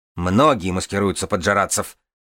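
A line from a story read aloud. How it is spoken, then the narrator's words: Snapping retort. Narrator (Russian): огрызнулась Нинавис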